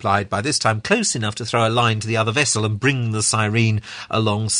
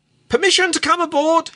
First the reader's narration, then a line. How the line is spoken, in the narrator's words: he cried jocularly